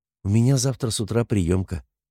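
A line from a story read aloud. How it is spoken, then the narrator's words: Quiet. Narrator (Russian): тихо сказала Наташа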